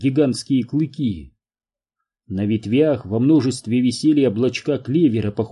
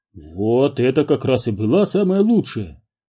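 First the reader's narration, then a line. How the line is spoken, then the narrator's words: Triumphant exclamation. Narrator (Russian): победно воскликнул Отто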